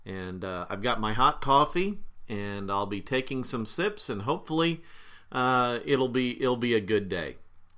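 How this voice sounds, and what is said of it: Slightly rough, funky-sounding voice. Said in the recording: “my voice sounds a little funky ... I've got a little crud in there”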